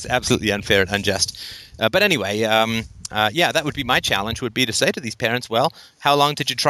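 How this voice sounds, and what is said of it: Usual voice. Nothing is said of it.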